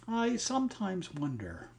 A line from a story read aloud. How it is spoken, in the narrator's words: she went on a little wistfully